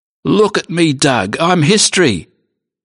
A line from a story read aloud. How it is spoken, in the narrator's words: Sid cried